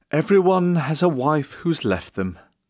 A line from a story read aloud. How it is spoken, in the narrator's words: he sighed